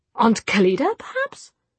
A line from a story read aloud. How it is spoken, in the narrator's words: said in a puzzled voice